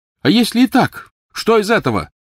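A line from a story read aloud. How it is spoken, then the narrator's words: Loud reply. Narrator (Russian): громко ответил Невилл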